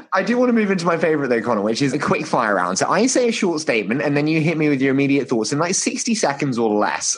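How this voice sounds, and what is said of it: British accent, like Harry Potter. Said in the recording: “You can get away with a lot because of your accent. It's great. ... people either think I'm Harry Potter or Benedict Evans”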